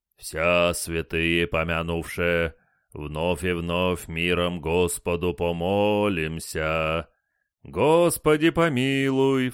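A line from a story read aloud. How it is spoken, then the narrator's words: Booming bass chant. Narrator (Russian): Здоровый диакон забасил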